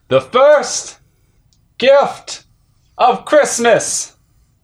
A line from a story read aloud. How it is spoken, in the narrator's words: He ... called out